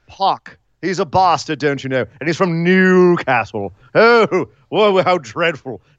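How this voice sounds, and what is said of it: Put-on posh British accent. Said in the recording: “if you're British, of course, you say Pac ... All right, Nigel. Calm yourself.”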